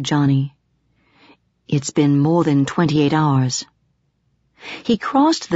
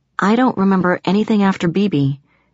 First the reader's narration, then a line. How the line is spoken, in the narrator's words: I said